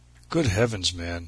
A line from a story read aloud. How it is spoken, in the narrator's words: he said